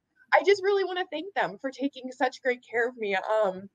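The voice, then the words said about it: Teary, emotional voice. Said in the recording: “get emotional, but I'm getting a little teary”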